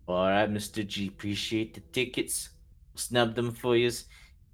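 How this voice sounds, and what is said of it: Macho tough-guy accent. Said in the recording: “I'm admiring your accent. It's very macho, Mr. Man.”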